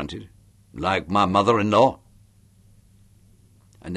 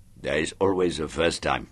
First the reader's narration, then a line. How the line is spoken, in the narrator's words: he grunted